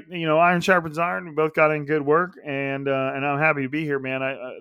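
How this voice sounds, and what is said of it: Imitates a cliché-spouting athlete. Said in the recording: “my impression of a player just vomiting press conference cliches”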